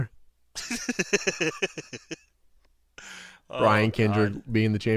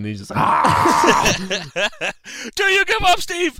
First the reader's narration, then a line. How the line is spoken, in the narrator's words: Shamrock screaming at him